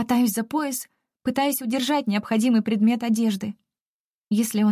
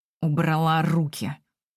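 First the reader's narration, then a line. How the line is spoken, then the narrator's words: Through gritted teeth. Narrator (Russian): Цедит сквозь зубы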